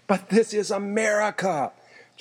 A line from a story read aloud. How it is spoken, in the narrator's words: Gene cried, and even to himself he sounded ridiculous